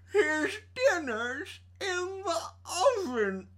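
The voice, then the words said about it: Impression of Evil Ed. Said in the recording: “That was a really good impression because that did sound exactly like him.”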